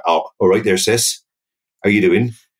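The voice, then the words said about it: London accent with West Country touch. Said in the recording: “the local accent is much more London, with a little bit West Country thrown on in”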